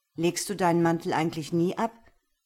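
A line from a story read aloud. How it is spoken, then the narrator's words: Gruff question. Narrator (German): fragte barsch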